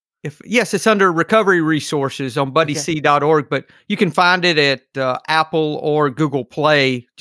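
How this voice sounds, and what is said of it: Southern drawl. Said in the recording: “my Southern drawl”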